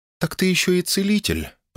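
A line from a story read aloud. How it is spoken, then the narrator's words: Calm statement. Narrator (Russian): произнесла спокойно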